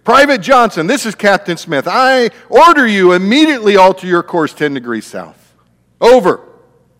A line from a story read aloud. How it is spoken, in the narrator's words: Appalled at the audacity of the message, the captain shouted back over the radio